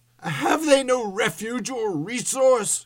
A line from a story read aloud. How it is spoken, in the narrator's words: cried Scrooge